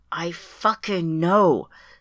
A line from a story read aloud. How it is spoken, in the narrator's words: says Sylvie, wheezing